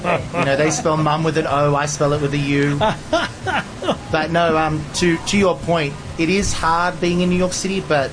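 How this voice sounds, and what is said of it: Mild Australian accent. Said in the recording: “the Aussie accent ... it's not as strong as it used to be”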